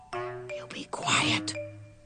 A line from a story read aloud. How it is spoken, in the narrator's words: heard her shepherd whisper through clenched teeth